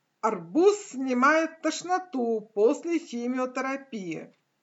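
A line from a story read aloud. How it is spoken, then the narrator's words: Loud announcement. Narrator (Russian): громко сообщила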